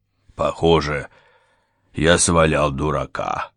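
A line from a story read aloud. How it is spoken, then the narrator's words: Grumbled. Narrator (Russian): проворчал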